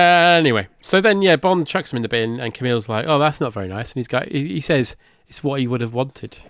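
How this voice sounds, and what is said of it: Usual voice. Nothing is said of it.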